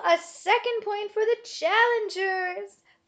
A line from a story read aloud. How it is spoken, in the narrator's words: Bismarck called out above the wild celebration